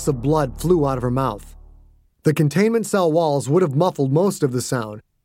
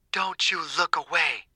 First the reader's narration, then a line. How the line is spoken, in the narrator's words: Margaret hissed